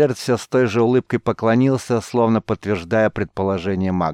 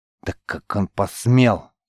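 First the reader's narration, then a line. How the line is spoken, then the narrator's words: Barely audible, through gritted teeth. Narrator (Russian): еле слышно процедил Георг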